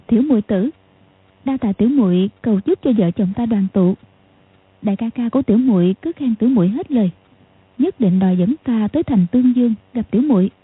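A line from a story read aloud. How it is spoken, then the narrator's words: Smiling female voice. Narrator (Vietnamese): Tiểu Long Nữ mỉm cười nói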